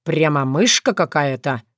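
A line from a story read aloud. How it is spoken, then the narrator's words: Snorting. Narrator (Russian): хмыкнул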